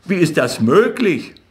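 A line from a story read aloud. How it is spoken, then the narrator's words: Excited. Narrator (German): sagte Rothschild aufgeregt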